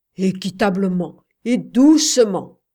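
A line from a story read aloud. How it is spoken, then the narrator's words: Soldier exclaiming. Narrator (French): s'exclama le soldat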